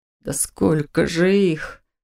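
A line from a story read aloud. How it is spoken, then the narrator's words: Breathless exhale. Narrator (Russian): выдохнул Доминик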